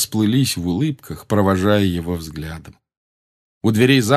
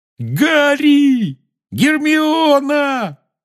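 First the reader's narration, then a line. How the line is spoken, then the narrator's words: Yelling. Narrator (Russian): завопил Рон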